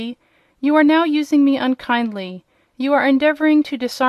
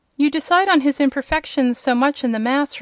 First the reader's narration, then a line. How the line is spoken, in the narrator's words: replied Elinor